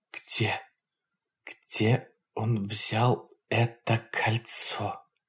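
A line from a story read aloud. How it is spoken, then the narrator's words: Hissing whispered question. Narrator (Russian): свистящим шепотом спросила она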